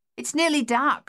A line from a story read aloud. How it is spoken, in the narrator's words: called out